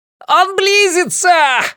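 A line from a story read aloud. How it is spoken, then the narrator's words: Screaming. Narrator (Russian): завопил Джим Бакановский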